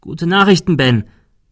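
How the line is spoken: Called out. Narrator (German): rief er

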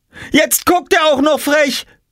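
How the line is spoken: Shouting. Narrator (German): schrie Jule

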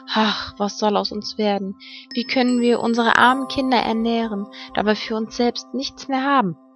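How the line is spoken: Worried sighing. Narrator (German): sich vor Sorgen herumwälzte, seufzte er und sprach zu seiner Frau

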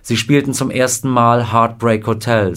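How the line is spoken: Plain. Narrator (German): sagte Scotty

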